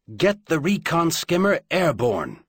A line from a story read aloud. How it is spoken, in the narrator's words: he snapped to Owl